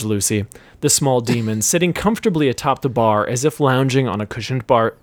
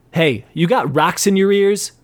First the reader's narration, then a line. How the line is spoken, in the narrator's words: shouted